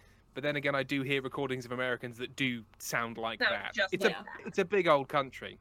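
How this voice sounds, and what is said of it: Usual voice. Nothing is said of it.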